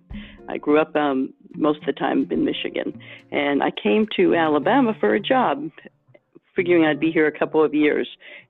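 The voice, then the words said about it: New Jersey accent with Michigan influence. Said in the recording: “I am originally with this accent from New Jersey, modified by Michigan.”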